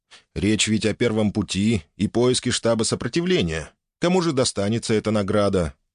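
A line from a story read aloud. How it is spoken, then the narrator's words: With a snort. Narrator (Russian): Стич, хмыкнув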